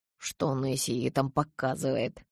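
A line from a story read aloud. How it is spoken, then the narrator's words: Muttered under breath. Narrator (Russian): пробурчал он вполголоса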